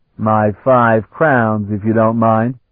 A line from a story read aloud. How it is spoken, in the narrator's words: Sparhawk said firmly